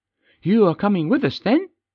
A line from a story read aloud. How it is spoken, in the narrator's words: asked brightly